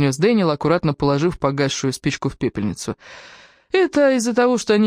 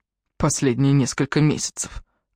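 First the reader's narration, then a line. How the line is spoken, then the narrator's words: Gruff mutter. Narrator (Russian): буркнул Джастин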